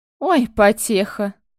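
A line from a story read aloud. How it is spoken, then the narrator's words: Creature laughing. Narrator (Russian): рассмеялось существо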